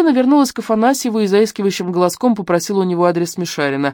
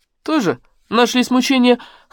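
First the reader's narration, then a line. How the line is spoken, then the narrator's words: Scoffing snort. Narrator (Russian): хмыкнул Афанасьев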